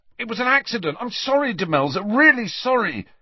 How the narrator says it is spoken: Ron shouted after her

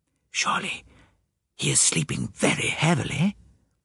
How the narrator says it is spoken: I whispered

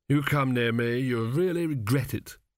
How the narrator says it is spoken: moaned Chidder, clutching his stomach

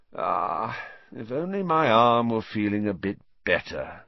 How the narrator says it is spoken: he sighed

